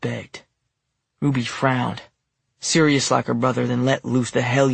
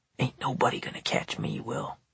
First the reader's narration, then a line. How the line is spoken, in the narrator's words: she whispered